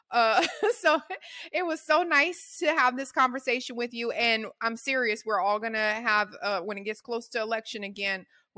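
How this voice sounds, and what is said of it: Strong Louisiana accent. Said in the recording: “I have a very strong Louisiana accent.”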